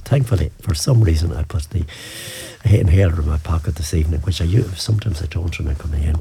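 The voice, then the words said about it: Hoarse, asthmatic voice. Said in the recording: “I'm a bit hoarse here, a bit asthma, a little bit of the asthma coming through.”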